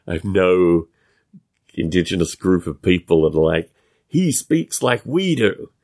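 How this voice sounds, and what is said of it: Non-American accent, hard to place. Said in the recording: “my accent puts me nowhere ... to not have an American accent”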